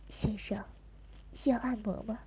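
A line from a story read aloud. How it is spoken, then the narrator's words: Husky, suggestive. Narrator (Chinese): 其中有一个用一种沙哑的、给人某种暗示的声音询问着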